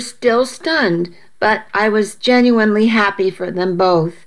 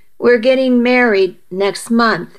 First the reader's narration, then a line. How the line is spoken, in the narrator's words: she said